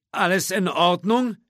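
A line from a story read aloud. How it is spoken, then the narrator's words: Whiny call from below. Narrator (German): rief der Grafikdesigner in quengelndem Tonfall herauf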